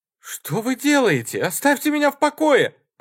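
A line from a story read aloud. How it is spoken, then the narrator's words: Screaming. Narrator (Russian): закричала Лэйси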